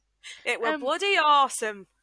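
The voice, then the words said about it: Put-on Yorkshire accent. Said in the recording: “I said it in that accent. ... You do a great Yorkshire accent”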